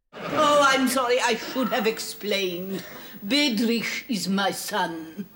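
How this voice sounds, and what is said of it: Generic Eastern European accent. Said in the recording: “she's doing a kind of generic Eastern European accent ... it's not played for laughs ... she's not doing a funny foreign accent. She's just doing an Eastern European accent.”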